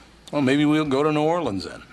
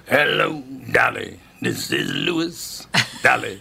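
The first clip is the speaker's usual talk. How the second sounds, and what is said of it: Imitates another person's voice. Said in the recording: “Fly into Louis Armstrong ... What do you think of that impression? ... It's pretty good.”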